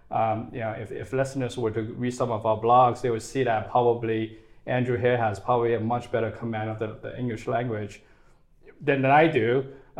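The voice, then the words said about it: Strong Chinese accent in English. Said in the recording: “as listeners can hear, my accent is much stronger than yours ... I was born in China”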